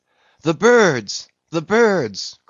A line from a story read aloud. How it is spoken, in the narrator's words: cried Tashtego